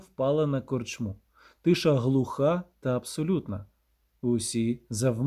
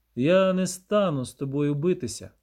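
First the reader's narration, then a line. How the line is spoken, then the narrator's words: Calmly repeated. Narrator (Ukrainian): спокійно повторив Геральт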